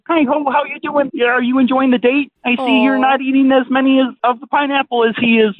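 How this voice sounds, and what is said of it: Kermit the Frog puppet voice. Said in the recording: “I do Muppet voices ... I brought out Kermit the Frog first”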